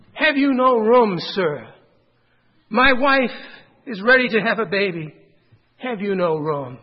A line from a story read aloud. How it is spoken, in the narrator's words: Joseph pleaded